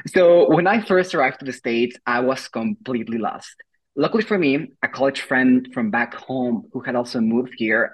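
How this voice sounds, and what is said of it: Mexican accent. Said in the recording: “as you can tell from my accent, I am Mexican”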